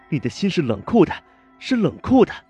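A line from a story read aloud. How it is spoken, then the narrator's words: Shouting. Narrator (Chinese): 郝维仙小姐大喊道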